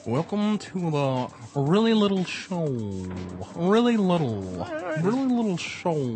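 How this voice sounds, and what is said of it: Johnny Carson impersonating Ed Sullivan. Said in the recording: “Johnny Carson doing Ed Sullivan ... Pretty good.”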